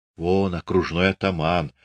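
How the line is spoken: Whisper. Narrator (Russian): шепнул Пантелей Прокофьевич

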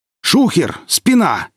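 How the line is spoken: Exclamation. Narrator (Russian): воскликнул босс

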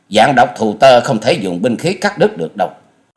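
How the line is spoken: Sharp shout. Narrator (Vietnamese): Hoa Dần Dần quát lên

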